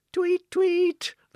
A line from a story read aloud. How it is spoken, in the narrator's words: the birds all cried